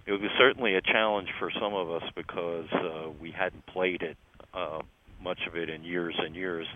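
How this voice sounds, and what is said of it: Philadelphia accent. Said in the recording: “your Philly accent is getting more prominent in your older years”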